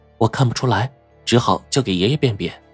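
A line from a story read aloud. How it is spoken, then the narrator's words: Soft-spoken. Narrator (Chinese): 白程程揣起来，朝着华生作了个揖，然后轻声说道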